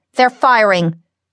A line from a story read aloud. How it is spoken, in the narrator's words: yelled